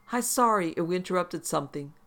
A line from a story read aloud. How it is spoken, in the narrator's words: the agent said in her sweet voice, but you could hear it falter towards the end